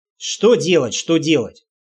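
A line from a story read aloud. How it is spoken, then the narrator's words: Amused snort. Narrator (Russian): хмыкнул я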